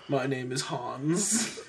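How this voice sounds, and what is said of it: Bad put-on German accent. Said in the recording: “What is this accent? ... I'm assuming he's German. ... All your accents are awful.”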